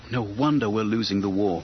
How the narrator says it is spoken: he muttered

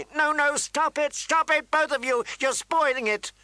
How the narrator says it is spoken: Sansa was shrieking

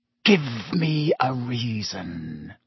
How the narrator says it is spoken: he whispered

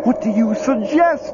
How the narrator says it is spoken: Lumley yells, his voice high and hysterical

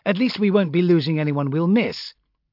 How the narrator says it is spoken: Brocklaw went on cheerfully

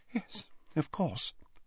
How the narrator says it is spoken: said Slughorn quietly, still dabbing at his white face

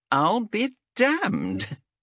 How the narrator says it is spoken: chuckled Xenthi

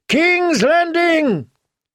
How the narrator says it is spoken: Other voices took up the cry

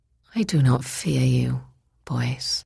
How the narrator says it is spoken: she said sadly

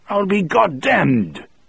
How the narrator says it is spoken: Toot Toot cried

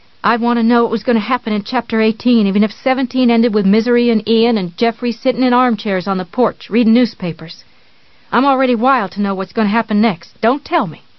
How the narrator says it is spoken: she added sharply

